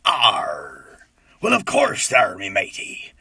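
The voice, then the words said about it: Growly stereotypical pirate voice. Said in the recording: “There's a stereotypical pirate. He's got a grungy voice ... Accent is a kind of English, I suppose ... a growl”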